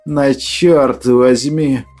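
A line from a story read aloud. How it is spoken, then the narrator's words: Displeased hiss. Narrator (Russian): Недовольно прошипел профессор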